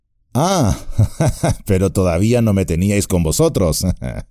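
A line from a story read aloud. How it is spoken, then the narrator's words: Said laughing. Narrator (Spanish): dijo Trancos riendo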